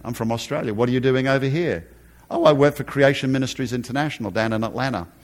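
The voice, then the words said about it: Australian accent. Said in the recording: “I've got an Aussie accent ... Hear the accent.”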